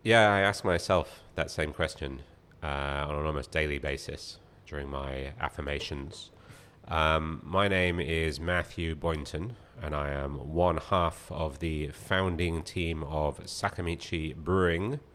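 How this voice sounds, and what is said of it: British Birmingham accent. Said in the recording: “I'm originally from Birmingham in the UK... As you can probably tell by my complete lack of accent... I don't have an accent. This is just what normal people sound like... The way you pronounce it, too”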